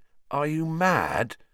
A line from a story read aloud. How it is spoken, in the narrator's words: said Harry, his voice easily as croaky as Sirius